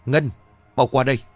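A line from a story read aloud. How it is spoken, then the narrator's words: Loud shout. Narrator (Vietnamese): Bà Nhân liền hét lớn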